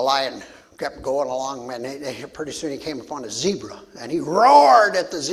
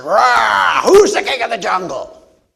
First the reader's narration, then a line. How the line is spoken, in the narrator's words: roared at him and he said